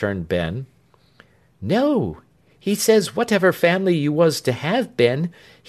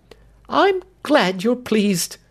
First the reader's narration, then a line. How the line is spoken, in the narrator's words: exclaimed his wife